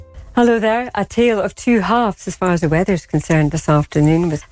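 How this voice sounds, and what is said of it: Soft-spoken Scottish accent. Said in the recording (Dutch): “een Schotse weervrouw een week lang niet goed te verstaan was ... kijkers vonden dus dat ze te zacht praten ... Te zacht en haar Schotse accent”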